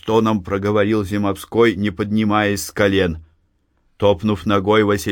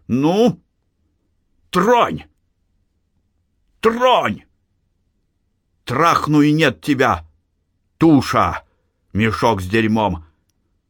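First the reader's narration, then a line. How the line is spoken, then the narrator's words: Shouting. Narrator (Russian): закричал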